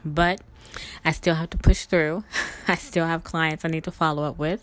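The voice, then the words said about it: Tired, exhausted-sounding voice. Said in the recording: “I'm exhausted. You probably can tell from my voice.”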